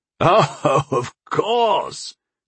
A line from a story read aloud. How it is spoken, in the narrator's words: old sorcerer laughed